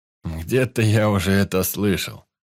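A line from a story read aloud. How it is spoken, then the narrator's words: Snide retort. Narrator (Russian): ехидно отозвался Святой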